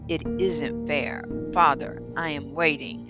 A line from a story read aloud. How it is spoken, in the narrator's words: said Michael coldly